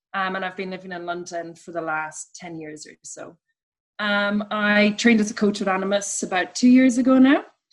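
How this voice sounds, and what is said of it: Irish accent. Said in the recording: “As you can probably tell from my accent, I'm from Ireland originally.”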